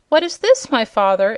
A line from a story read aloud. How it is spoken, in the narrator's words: exclaimed the prince, amazed